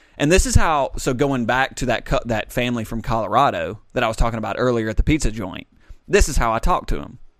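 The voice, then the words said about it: Southern American accent. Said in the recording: “this is my Southern accent ... I didn't try to hide my Southernness”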